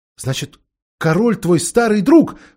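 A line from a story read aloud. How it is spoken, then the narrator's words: Exclaiming. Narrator (Russian): воскликнула Джилл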